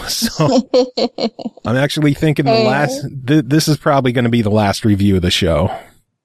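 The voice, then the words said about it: Hoarse, nearly lost voice. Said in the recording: “My voice is basically gone right now”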